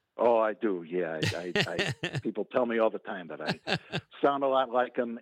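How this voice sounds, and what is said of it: Slight Chicago accent. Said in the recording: “a little bit of that Chicago accent”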